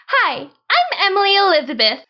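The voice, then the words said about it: Cute young girl character voice. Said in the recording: “I did my best Emily Elizabeth voice. ... That's so cute.”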